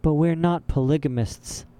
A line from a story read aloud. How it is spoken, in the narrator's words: Violet said mournfully